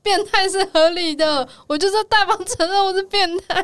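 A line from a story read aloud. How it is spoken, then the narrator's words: Shouting. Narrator (Chinese): 他那边大喊说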